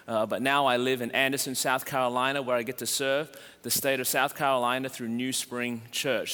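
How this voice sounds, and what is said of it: Australian accent. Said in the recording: “originally from Melbourne, Australia. That's the reason my voice is this way.”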